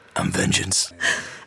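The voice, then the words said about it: Batman voice impression. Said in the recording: “as the Batman would put it, vengeance. I'm not going to do the voice, but I know you do it very eloquently”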